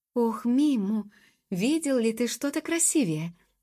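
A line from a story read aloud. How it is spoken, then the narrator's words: Exclamation. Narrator (Russian): воскликнула Джуб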